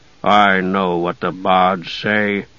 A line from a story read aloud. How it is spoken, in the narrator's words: he said grimly